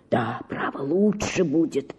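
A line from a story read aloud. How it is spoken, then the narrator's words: Whispered. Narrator (Russian): шептал он мне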